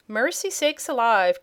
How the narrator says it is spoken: cried Mrs

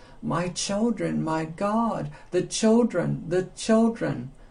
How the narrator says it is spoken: open her lips and gasp

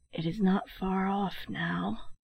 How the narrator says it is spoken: His voice sank to a whisper

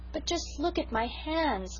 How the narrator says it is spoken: moaned Sarah

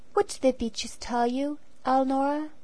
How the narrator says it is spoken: he asked gently

